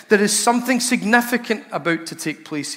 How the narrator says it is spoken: he says

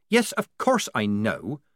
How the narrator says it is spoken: said Polly irritably

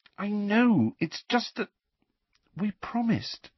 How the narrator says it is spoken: said Hermione in a small voice

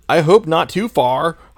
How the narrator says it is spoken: I shouted angrily

